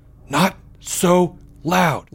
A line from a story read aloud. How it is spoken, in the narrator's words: Leo whispered